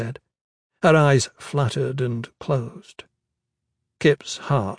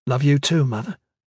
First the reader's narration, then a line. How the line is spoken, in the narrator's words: he said, trying to keep his tone light